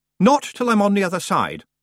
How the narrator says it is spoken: Roland said firmly

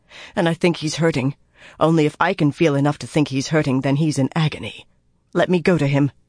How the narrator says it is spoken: the girl muttered

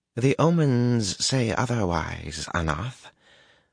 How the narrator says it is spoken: the girl said calmly, and not at all in anger

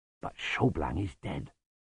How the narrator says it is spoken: murmured Lutzer

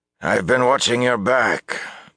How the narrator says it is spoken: announced gruffly

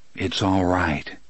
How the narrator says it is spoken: he said softly

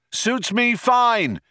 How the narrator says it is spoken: shouted Zaphod back

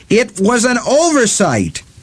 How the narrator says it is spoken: the woman screamed

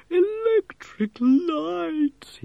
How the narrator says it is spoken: he moaned

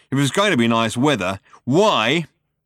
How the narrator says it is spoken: he almost spat

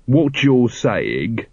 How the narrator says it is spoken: said Vimes slowly

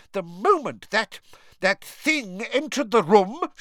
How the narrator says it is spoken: she screamed, trembling all over

